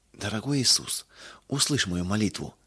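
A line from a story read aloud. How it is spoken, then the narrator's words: Sobbing whisper. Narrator (Russian): всхлипывая, прошептала она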